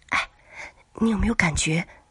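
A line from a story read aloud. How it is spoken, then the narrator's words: Quiet voice. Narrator (Chinese): 王小丽小声的说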